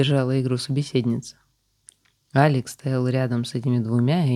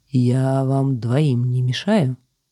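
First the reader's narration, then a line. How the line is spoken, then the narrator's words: Through gritted teeth. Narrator (Russian): сквозь зубы процедил охотник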